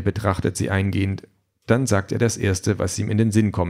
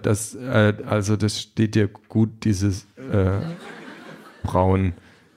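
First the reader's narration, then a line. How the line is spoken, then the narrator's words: Stammering. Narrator (German): stammelt Peter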